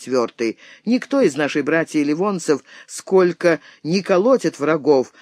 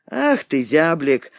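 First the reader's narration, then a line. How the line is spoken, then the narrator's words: Laughing remark. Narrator (Russian): заметил, смеясь Фриц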